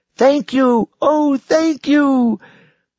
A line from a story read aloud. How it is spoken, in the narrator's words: the girl shouted